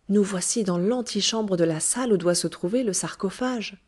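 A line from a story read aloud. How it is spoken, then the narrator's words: Joyful exclamation. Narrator (French): s'écria Rumphius ... étincelants de joie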